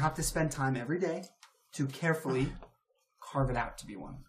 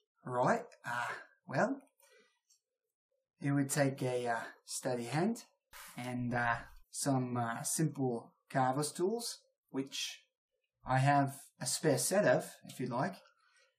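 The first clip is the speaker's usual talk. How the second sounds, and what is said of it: Put-on Australian accent. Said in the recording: “I have to do it in Australian accent now. forgive me, everyone.”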